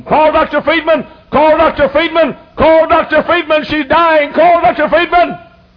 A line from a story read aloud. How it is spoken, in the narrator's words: screaming